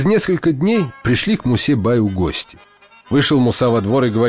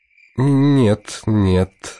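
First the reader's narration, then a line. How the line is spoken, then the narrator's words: Through gritted teeth, frustrated. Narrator (Russian): отвечает Мусабай сквозь зубы, а сам чуть не стонет от досады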